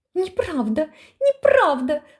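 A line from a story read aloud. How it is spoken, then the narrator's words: Thin, broken shrieking scream. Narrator (Russian): закричала тоненьким прерывающимся визгом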